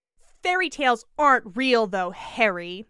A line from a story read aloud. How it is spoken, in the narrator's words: she said harshly